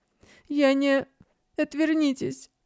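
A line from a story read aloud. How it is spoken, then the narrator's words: Sobbing. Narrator (Russian): всхлипнула Лисия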